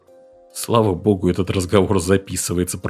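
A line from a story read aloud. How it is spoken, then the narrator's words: Mumbled. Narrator (Russian): пробормотал Дженсен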